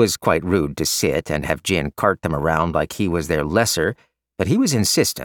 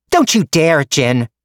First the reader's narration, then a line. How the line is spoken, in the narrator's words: Mei Ling screeched